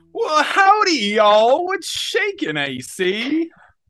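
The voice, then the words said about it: Put-on Texan drawl. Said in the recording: “I guess that's your accent, because having been in Texas, you're still talking like that.”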